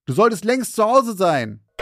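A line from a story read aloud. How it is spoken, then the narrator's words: Called after. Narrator (German): rief ich hinterher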